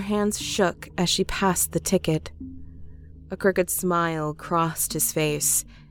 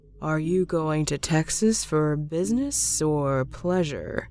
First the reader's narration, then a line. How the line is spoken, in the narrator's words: he asked in a slow monotone